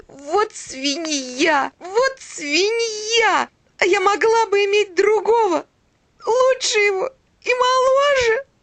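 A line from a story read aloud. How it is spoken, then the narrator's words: Sobbing woman. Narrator (Russian): И она разрыдалась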